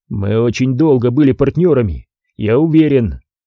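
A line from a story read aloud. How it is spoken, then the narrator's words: Rude curt retort. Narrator (Russian): грубо отрезал Крис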